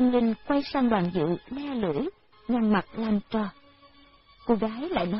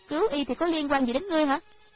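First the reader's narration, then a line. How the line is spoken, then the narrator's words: Irritated girl. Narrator (Vietnamese): Cô gái kia bực bội nói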